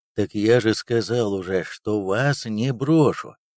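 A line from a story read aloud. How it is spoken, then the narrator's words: Calm male reminder. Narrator (Russian): спокойно напомнил мужчина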